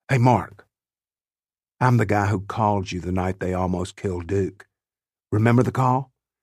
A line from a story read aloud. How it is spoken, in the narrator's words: I lean down and in a low voice say